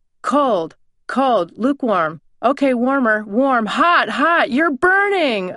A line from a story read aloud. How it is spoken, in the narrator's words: from behind came the shouts